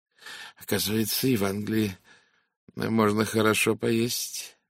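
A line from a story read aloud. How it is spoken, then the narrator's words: Low voice. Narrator (Russian): вполголоса произнес Фурнье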